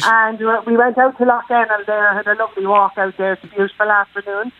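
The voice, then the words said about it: Dublin Irish accent. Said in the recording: “do I hear a Dublin accent there? ... You do, yeah. I'm originally from John and Mead in Dublin.”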